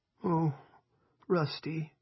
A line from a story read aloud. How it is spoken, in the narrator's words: Linda moaned